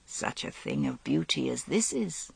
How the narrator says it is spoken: he said gently

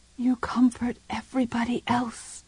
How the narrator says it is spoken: she whispered

